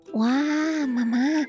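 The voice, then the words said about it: Whispering, very quiet voice. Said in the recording (Chinese): “小小声地说”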